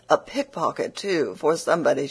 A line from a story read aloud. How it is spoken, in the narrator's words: the other gentlewoman cried out